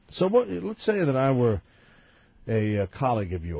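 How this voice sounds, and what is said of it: Usual voice. Nothing is said of it.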